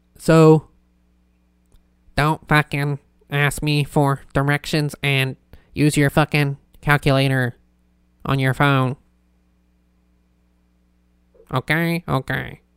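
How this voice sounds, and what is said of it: Bad robotic Italian Squidward voice. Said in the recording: “That turned from like a bad like robot voice to like a bad fucking Squidward, Italian Squidward... Turned into Italian Squidward.”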